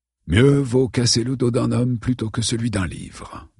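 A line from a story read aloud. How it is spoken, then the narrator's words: Murmured. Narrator (French): murmura James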